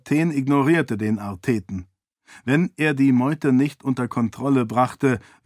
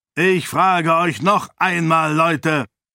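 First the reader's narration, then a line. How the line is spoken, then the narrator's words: Bellow. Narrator (German): brüllte Herathen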